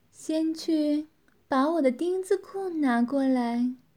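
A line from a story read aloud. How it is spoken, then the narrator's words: Satisfied laugh. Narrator (Chinese): 女子满意地笑道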